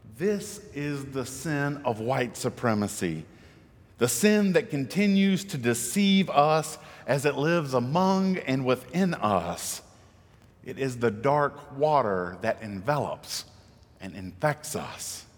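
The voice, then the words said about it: Southern US accent, South Carolina. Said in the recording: “a son of South Carolina talking in this accent ... one big Southern problem”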